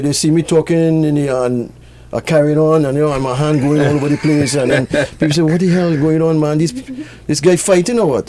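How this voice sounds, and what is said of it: Strong Trinidadian accent. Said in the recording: “strong Trini accent”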